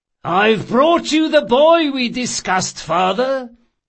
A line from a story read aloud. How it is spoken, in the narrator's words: the thief-maker announced loudly enough for several passers-by to hear him